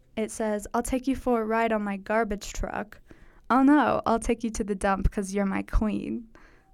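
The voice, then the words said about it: Sarcastic delivery. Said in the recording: “I sound sarcastic because I am being partially sarcastic”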